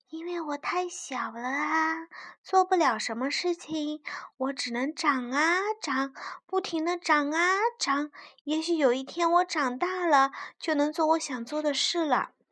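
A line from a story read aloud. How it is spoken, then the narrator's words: Soft answer. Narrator (Chinese): 小草轻声的回答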